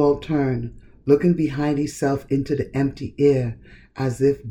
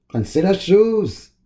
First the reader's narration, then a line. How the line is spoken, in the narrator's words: Oswald bellow